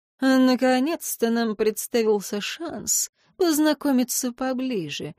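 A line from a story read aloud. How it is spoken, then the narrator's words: Purring into ear. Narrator (Russian): мурлыкнул он мне в ухо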